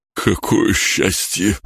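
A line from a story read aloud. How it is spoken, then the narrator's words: Breathed out. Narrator (Russian): выдохнул он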